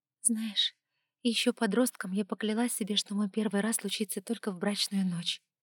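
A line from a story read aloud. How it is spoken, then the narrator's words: Quiet. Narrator (Russian): тихо начала она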